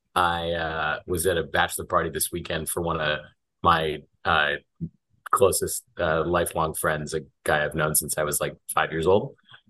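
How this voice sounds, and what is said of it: Hoarse, worn-out voice. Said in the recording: “My voice is a little shot.”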